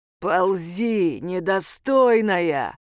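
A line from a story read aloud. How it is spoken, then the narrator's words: Growled in the face. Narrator (Russian): рыкнул он ей в лицо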